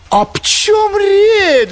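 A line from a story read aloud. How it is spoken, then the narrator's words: Roared. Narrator (Russian): взревел Коровьев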